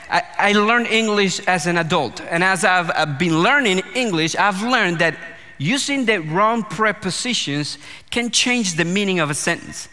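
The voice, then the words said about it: Non-native English accent. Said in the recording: “my delightful accent may have already given this away, but English is not my first language”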